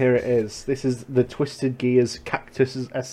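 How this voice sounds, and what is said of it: Usual voice. Nothing is said of it.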